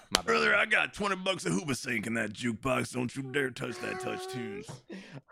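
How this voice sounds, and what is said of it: Exaggerated butt rock fan voice. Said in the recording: “a terrible butt rock accent ... a relatable impression”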